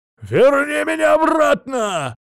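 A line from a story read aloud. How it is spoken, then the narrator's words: Desperate yell echoing through visor. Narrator (Russian): заорал он, отчаянно резонируя опущенным забралом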